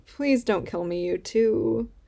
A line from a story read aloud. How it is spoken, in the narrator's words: he whines